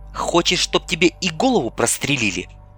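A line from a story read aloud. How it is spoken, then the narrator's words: Hissed. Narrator (Russian): прошипела Ольга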